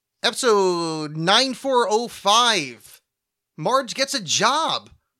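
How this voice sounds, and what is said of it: Forced upbeat commentary-track voice. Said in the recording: “my impression of every commentary track, is they're really trying to get, like, energy up and it never works.”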